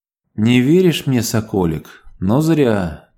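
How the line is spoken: Quiet. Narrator (Russian): тихо проговорила она

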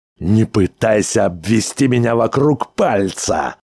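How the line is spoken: Roaring. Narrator (Russian): взревел он

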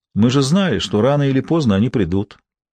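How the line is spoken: Calm. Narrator (Russian): сказал спокойно

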